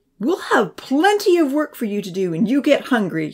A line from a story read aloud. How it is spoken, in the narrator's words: he replied angrily